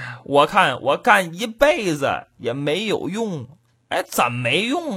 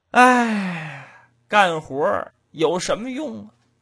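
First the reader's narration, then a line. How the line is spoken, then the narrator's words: Sighing heavily. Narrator (Chinese): 这主长吁短叹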